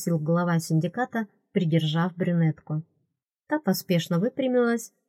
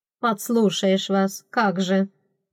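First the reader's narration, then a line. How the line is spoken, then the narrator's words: Unrepentant grumble. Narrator (Russian): пробурчала она без тени раскаяния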